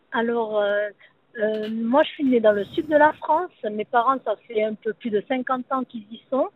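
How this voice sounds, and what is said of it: Southern French accent. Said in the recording (French): “votre joli petit accent du midi ... j'ai gardé cet accent”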